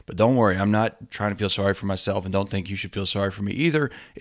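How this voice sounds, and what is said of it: Sick-sounding voice. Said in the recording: “For the past week, I've been sick. You can probably still hear it in my voice.”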